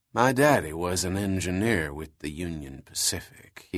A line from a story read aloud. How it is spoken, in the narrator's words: said quietly